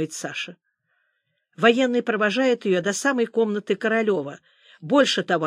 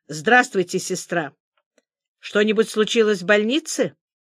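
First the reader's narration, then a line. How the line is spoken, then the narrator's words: Dry, clipped question. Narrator (Russian): Сухо, отрывисто спрашивает Королев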